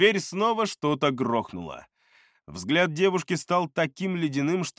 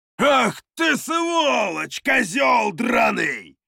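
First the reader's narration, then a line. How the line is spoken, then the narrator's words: Roaring from outside. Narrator (Russian): взревел снаружи один из горцев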